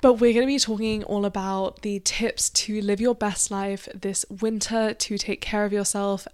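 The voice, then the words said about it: Croaky, strained voice. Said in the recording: “I'm sorry if my voice sounds croaky. I've been doing a big filming day today, and my voice really hurts.”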